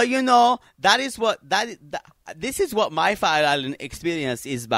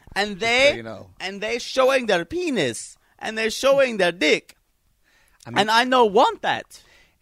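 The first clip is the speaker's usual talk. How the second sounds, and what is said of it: Put-on Asian-sounding accent. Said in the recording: “That sounds kind of Asian. ... That's a very good impression.”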